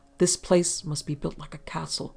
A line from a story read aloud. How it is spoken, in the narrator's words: Harrison muttered